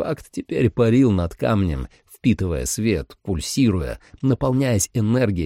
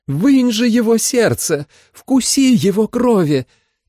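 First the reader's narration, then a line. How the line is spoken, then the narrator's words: Shouting over storm. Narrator (Russian): воскликнула жрица, перекрикивая рев дождя и ветра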